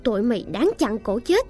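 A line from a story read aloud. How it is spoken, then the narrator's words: Angry loud shout. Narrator (Vietnamese): Cô dâu nổi giận hét lớn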